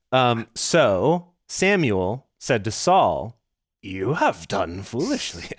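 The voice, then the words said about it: Yoda voice impression. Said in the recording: “I'm not going to do a Yoda voice. I'm sorry. That was a mistake. As soon as I started it, I knew it was a mistake.”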